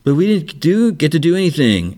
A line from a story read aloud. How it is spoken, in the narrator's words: whines, she's like